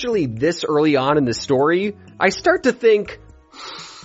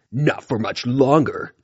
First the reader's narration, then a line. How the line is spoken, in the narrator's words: Tiger Claw growled